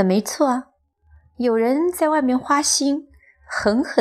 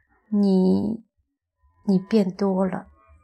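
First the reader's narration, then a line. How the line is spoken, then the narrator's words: Astonished mumble. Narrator (Chinese): 丈夫 满脸惊诧，喃喃地说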